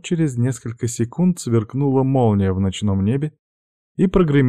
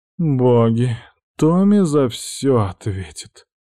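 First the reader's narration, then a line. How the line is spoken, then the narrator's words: Exhausted hoarse rasp. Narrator (Russian): прохрипела умотавшаяся зеленоволосая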